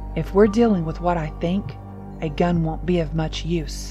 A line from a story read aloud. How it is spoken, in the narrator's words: Papa replied gravely